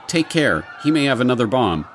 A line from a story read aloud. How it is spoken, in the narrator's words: Someone in the crowd shouts